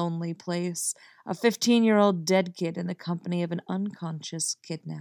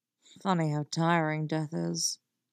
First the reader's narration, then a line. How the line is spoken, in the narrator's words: Jason muttered into his knees